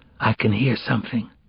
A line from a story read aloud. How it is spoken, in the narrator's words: she whispered